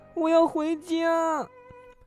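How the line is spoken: Anxious, crying. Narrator (Chinese): 小兔急哭了

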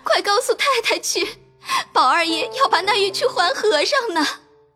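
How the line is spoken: Crying. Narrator (Chinese): 袭人哭道

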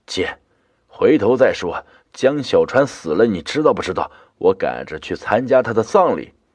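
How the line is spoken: Rough, hurried interruption. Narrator (Chinese): 弟弟声音粗忙的打断我说

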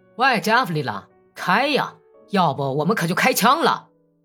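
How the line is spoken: Shouting. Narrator (Chinese): 有个哥萨克 喊道

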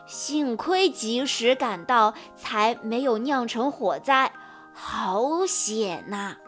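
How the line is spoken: Old rooster, sighing exclamation. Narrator (Chinese): 公鸡爷爷感叹道

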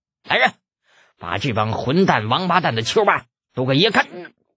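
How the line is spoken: Startled, furious cursing. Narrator (Chinese): 被吓了一跳的朱二爷当即大怒 骂道

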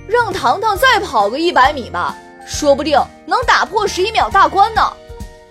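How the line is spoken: Loud suggestion. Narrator (Chinese): 高声提议

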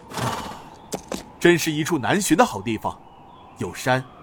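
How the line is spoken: Exclaiming in admiration. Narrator (Chinese): 天王星高怀文叹绝道

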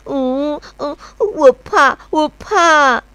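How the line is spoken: Little bear crying. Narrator (Chinese): 小熊多多 哭 一边哭，一边说

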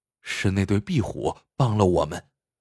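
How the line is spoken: Whisper. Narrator (Chinese): 张啸峰凑在他耳边轻声说道

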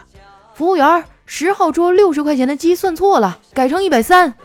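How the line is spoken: Shouting. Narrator (Chinese): 回头喊了一嗓子

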